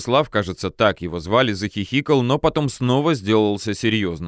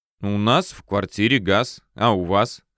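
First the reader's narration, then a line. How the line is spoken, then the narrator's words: Smirking snort. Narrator (Russian): хмыкнул я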